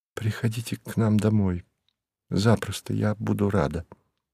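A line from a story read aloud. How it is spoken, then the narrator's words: Whisper. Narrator (Russian): прошептала она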